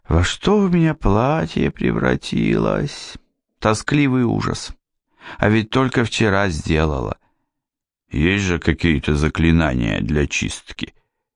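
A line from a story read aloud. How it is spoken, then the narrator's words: Sad. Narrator (Russian): Яна грустно сказала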